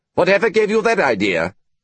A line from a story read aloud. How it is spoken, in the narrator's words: he said sharply